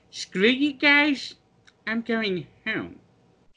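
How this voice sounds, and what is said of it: Cartoon character voice impression. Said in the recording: “Great Cartman impression”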